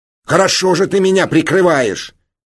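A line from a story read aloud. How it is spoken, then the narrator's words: Angry barking. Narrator (Russian): рявкнул на него Ираст Петрович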